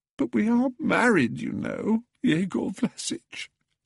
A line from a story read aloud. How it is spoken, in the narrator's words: sobbed Pelagia